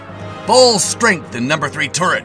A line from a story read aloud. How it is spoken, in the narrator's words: shouted the commander